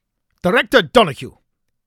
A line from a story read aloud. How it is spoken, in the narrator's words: Khaled snapped, struggling to keep his composure